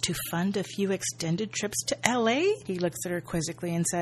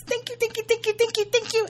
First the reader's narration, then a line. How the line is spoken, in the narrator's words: she squeals